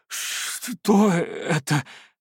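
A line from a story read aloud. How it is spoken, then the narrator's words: Wheezing. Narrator (Russian): просипел я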